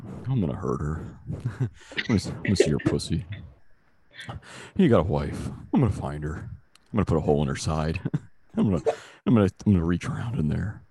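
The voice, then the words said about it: Imitates another person's voice. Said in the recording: “Who's that an impression of?... That's Philip Seymour Hoffman from Mission Impossible”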